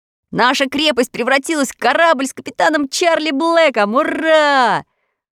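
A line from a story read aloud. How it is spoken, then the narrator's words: Delighted shout. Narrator (Russian): в восторге закричал Тим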